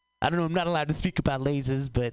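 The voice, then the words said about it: Imitates another person's voice. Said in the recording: “oh, that was Woody Allen. I don't know why I did Woody Allen. You ever not practice an accent and then you do Woody Allen accidentally? ... that was bad”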